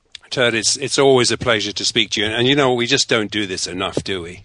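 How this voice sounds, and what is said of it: English British accent. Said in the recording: “I love hearing Turd in the English-British accent”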